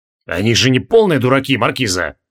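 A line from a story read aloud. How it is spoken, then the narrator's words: Grumbled. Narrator (Russian): проворчал барон Джориан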